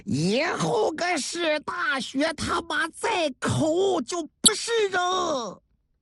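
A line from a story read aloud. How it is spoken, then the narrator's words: Angry roar. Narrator (Chinese): 史大学怒吼了一声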